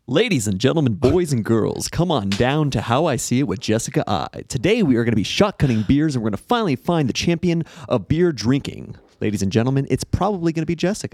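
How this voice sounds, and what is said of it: Showy radio DJ announcer voice. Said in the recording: “show us your sexy DJ voice”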